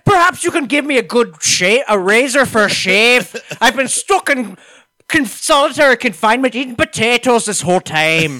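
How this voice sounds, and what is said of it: Bad put-on Irish accent. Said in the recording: “has the world's worst Irish accent in it”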